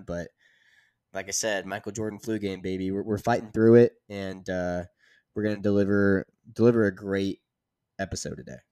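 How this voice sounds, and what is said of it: Congested, pinched-nose voice. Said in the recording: “I sound like my nose has been pinched for this entire episode ... I got the congestion going on”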